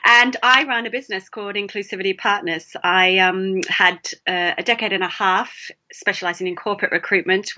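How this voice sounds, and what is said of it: Australian accent. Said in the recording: “I'm sure you can hear the accent. I'm originally from Melbourne in Australia.”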